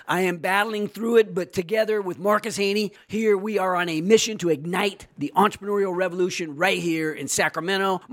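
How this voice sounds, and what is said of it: Hoarse, nearly lost voice. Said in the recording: “as you can tell, I have lost my voice. ... I can't even get the words out of my mouth.”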